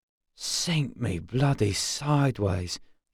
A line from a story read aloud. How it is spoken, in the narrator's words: he muttered